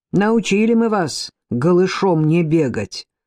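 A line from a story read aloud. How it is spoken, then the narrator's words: Sarcastic smirk. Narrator (Russian): язвительно усмехнулся мастер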